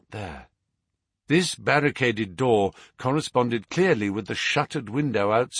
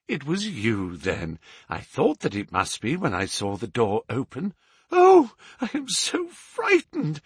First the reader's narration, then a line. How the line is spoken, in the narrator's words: I panted